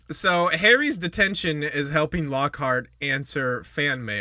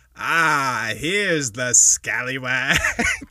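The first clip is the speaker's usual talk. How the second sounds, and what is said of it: Impression of Gilderoy Lockhart. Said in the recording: “your fucking Lockhart impression”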